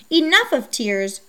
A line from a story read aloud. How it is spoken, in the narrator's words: Perseus said to them sternly